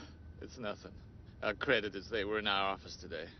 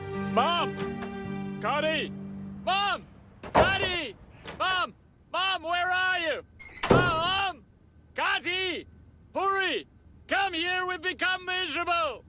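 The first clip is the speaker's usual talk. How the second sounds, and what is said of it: Yelling loudly. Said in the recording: “Why are you yelling now?”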